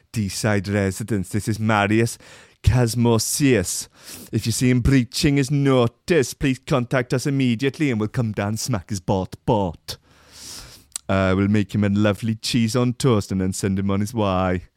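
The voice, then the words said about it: Attempted Welsh accent. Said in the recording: “My Welsh accent needs work.”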